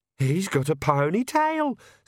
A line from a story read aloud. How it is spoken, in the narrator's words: squeaked Perdita